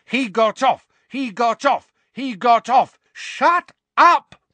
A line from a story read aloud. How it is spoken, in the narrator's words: roared Mrs